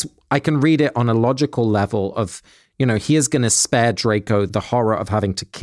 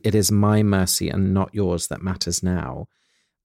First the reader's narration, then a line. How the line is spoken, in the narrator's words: said Dumbledore quietly